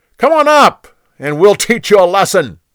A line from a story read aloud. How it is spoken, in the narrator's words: They yelled down to Jonathan